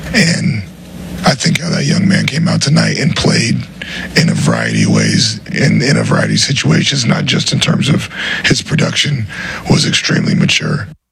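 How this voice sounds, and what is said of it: Raspy, hoarse voice. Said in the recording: “his voice is raspy ... he is horsed”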